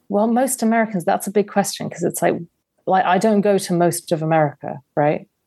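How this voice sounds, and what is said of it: English accent. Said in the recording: “English accent.”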